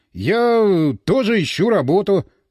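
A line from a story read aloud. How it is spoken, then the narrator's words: Forced out reluctantly. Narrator (Russian): наконец выдавил он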